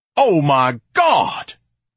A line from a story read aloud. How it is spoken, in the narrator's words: Ignatius thundered